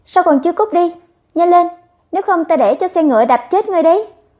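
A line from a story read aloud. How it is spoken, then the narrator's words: Harsh scolding shout. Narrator (Vietnamese): Sa phu lại tiếp tục quát mắng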